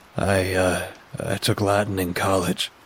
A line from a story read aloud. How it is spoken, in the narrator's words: he croaked